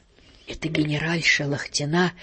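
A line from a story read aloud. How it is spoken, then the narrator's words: Whispered in ear. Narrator (Russian): шепнул мне на ухо фон Пистелькорс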